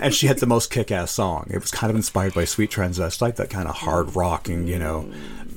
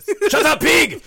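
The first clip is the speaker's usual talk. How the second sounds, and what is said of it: Yelled line, exaggerated German accent. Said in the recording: “very, very exaggerated German accent and yelled every line ... With the German accent”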